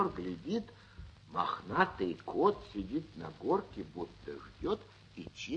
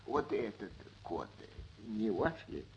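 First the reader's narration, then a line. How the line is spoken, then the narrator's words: Trembling, coughing old man whispering. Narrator (Russian): Старик весь дрожа от кашля шепотом спросил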